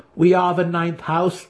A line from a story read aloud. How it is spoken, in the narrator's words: Dinan laughed